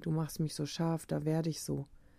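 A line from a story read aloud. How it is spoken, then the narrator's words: Whispering. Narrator (German): flüstert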